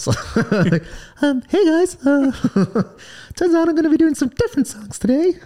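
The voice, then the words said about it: Mickey Mouse-like cartoon voice. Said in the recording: “Can you do it in a Michael Jackson? ... I don't sound like Mickey Mouse. ... That's definitely Mickey Mouse, that. ... That was a good impression for you.”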